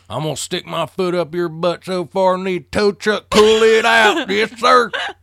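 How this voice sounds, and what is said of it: Put-on Southern accent. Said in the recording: “he doesn't really have a Southern accent, but he should.”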